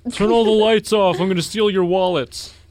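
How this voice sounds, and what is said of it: Imitates another person's voice. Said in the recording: “that was a bad Trump impression.”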